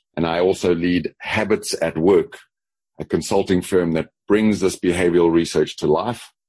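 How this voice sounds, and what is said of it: South African accent. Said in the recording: “I noticed there might be an accent ... my Texas accent because it comes from the South ... a little bit of the all of y'all in that accent, but it's mostly South Africa.”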